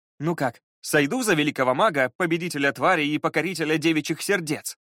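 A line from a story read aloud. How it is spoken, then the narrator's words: Sudden stern question. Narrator (Russian): спросил он вдруг суровым тоном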